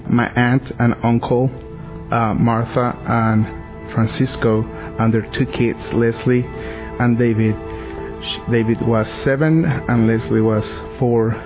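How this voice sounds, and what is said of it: Mexican Spanish accent. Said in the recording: “As you can hear, I have an accent. I'm from Mexico City.”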